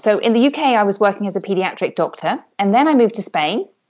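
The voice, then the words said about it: British accent. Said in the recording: “as you can tell from my accent, I'm from the UK”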